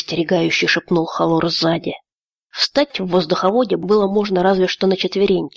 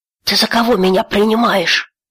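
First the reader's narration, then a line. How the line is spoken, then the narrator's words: Breathy exhale. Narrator (Russian): выдохнул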